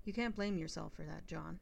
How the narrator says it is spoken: she said kindly

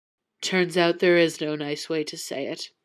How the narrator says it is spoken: mumbled through the ice pack Jane pressed to his nose

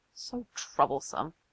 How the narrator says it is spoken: muttered only

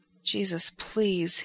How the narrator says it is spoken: he murmurs

